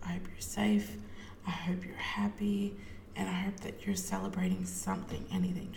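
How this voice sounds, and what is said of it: Slightly hoarse, partly lost voice. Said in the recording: “I've lost my voice a little bit.”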